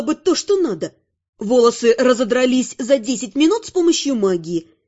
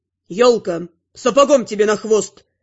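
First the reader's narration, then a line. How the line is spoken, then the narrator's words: Roaring. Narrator (Russian): взревел Антел Герлей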